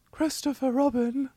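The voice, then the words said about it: Creepy Winnie the Pooh impression. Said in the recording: “do a poo voice ... that's a really creepy Winnie the Pooh ... That was actually pretty good”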